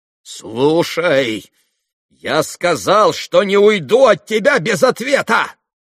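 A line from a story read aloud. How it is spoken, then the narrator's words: Furiously irritated shout. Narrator (Russian): в страшном раздражении крикнул Иван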